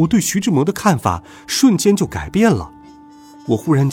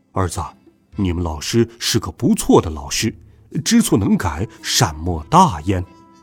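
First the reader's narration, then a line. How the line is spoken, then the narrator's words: Soft, gentle. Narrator (Chinese): 爸爸轻声说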